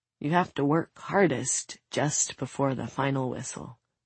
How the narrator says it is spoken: Soon smiles wearily

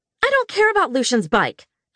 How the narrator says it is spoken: I snapped

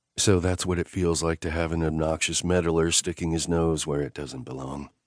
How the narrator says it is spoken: he said evenly

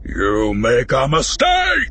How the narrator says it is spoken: Harak said, the hulking warrior's voice booming

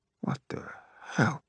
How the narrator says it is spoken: Lucian Orthos mutters

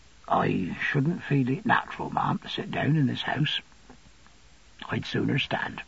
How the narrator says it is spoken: He said in a low voice

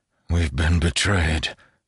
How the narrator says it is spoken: said Paraith, his voice hollow

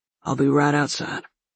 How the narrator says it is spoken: he muttered

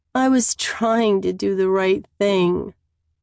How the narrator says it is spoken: I moan miserably

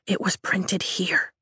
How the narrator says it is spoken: I whisper, fear twisting my stomach into knots

